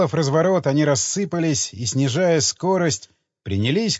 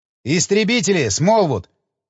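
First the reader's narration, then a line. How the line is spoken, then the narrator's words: Ecstatic yell. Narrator (Russian): восторженно завопил я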